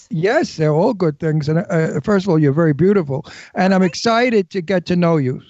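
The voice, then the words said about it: New York accent. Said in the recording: “I never lost my New York accent... I miss my New York accent”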